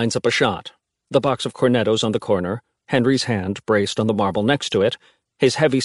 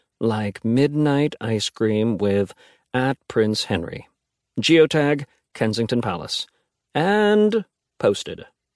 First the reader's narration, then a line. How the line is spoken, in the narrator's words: Alex narrates in a monotone